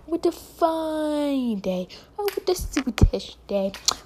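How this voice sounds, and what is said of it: Put-on British accent. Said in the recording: “the British accent, people like saying, what a marvelous day ... Make a little sound more British.”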